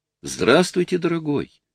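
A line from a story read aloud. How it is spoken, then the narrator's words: Ingratiating greeting. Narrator (Russian): вкрадчиво поприветствовал лысый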